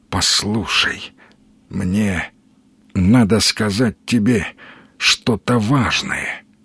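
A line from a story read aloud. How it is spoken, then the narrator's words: Quiet moan. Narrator (Russian): тихо простонал незнакомец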